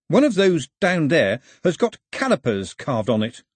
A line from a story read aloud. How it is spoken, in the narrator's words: said cheerfully